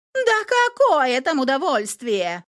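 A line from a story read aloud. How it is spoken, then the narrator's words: Shrill, louder squeal. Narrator (Russian): Взвизгнула пуще прежнего обманщица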